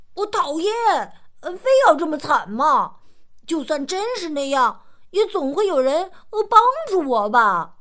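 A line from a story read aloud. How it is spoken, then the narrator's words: Excited loud shout. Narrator (Chinese): 大胖激动的大声喊道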